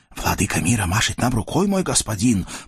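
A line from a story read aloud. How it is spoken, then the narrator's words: Whispered in ear. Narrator (Russian): прошептал карашир на ухо воеводе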